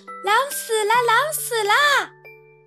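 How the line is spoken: Young goats crying out. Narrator (Chinese): 七只小山羊……叫道

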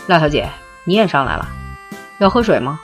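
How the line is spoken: Smiling. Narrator (Chinese): 笑说

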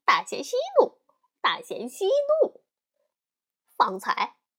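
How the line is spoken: Cheeky, grinning. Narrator (Chinese): 对大仙嬉皮笑脸的说

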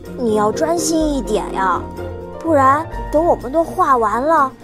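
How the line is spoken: Sighing. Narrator (Chinese): 琪琪叹气

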